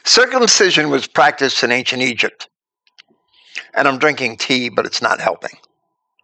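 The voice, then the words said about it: Froggy, raspy voice. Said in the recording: “I have a dry cough ... my voice is getting froggy or raspy”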